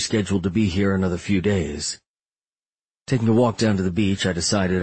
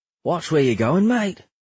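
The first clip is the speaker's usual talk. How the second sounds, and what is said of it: Australian accent. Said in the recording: “he said with an Australian accent.”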